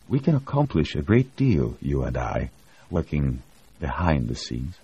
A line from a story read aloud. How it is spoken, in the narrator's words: he whispered